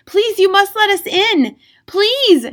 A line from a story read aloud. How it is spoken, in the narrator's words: shouted Leo Matinee